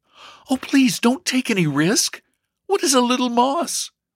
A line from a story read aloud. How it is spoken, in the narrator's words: Elsie exclaimed eagerly